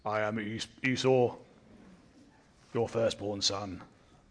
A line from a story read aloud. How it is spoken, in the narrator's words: Jacob, the Esau impersonator, says in his deepest voice